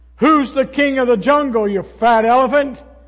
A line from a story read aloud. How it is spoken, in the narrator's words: the lion roared